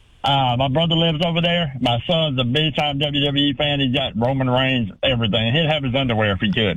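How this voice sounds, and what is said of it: Accent from Georgia, US. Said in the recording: “I love your accent ... I'm from Leesburg, Georgia.”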